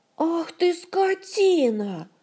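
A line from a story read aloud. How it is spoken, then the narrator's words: Pitiless furious howl. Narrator (Russian): взвыла Ольга, в один миг лишившись всяческого сострадания к этой профессиональной жертве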